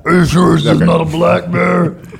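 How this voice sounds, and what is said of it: Terrible imitation of another person's voice. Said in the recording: “that's a terrible impression of Martha”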